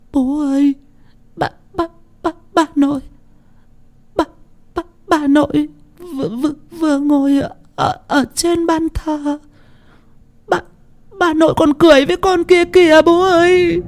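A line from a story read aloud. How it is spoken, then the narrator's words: Frightened child sobbing. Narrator (Vietnamese): Con Tình thút thít, vừa khóc vừa sợ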